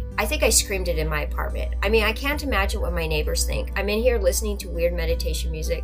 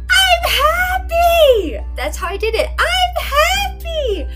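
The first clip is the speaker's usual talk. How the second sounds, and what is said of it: Screaming loudly. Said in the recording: “I'm screaming”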